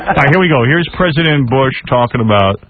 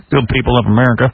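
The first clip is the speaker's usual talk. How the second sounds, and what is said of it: President Bush impression. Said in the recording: “my Bush impression”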